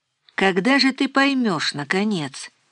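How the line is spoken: Quiet. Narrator (Russian): произнесла Нина тихо

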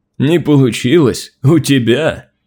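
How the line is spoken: Mighty warrior's booming laugh. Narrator (Russian): Могучий воин гулко расхохотался

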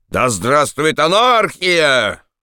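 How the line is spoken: Crazed drunken yelling. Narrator (Russian): Один после каждого глотка орал, как сумасшедший

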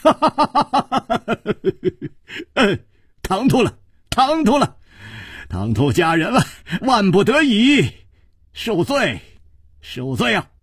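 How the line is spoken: Laughing. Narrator (Chinese): 楚留香躬身笑道

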